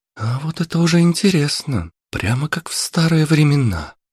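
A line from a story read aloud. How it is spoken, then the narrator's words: Pleased voice. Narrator (Russian): довольным голосом произнесла Аня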